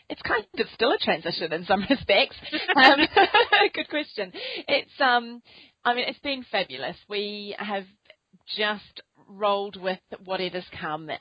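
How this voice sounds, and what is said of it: New Zealand accent. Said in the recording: “despite the accent ... that's a New Zealand accent.”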